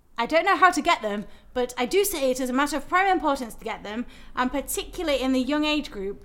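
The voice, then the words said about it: Reads quote in British accent. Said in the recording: “I realise I just did that whole thing in a British accent.”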